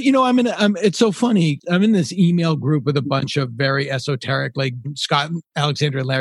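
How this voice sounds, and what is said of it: Usual voice. Nothing is said of it.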